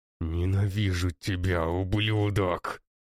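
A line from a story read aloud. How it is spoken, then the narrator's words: Young man rasping through bloody teeth. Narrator (Russian): Сквозь покрытые кровью зубы хрипит парень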